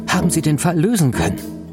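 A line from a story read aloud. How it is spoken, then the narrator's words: Call. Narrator (German): rief er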